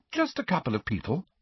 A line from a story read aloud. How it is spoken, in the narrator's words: Hermione repeated